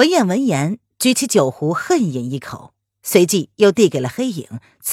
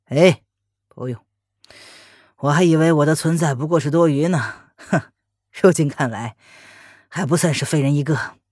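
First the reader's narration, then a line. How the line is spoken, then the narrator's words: Bitter laugh. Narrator (Chinese): 黑影闻言苦苦一笑，对文燕道谢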